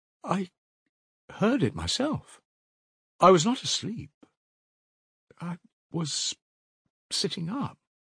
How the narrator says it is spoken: he said still more timidly

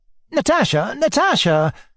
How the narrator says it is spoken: Alyosha cried in distress

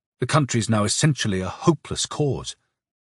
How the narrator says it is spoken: Turbin muttered

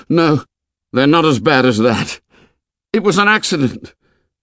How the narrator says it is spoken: A spasm of terror set him shaking, and he cried aloud

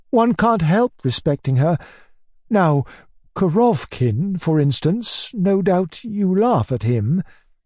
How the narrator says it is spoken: added, glancing at me timidly

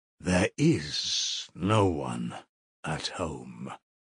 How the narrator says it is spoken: he said quietly and emphatically

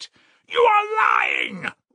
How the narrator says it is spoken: roared Raskolnikov without restraint

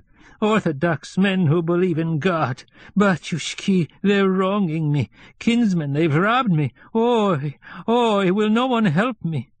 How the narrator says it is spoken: she stopped, beat her breast with her fists, and exclaimed with a whine and a sob

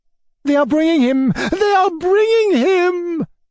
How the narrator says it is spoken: the ladies ran shrieking

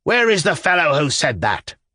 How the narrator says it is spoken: roared the governor

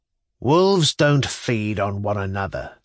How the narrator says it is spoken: says a third gloomily, half to himself

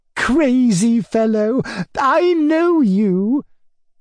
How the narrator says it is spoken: Tatiana Ivanovna lisped with gleeful playfulness

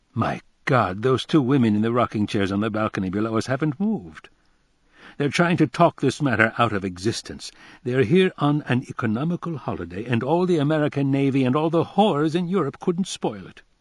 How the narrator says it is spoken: Tommy exclaimed

